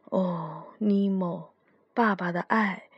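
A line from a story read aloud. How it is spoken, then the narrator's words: Murmuring. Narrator (Chinese): 他不禁喃喃自语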